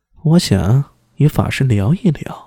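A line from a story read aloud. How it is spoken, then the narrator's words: Low, hushed voice. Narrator (Chinese): 王皇后压低声音道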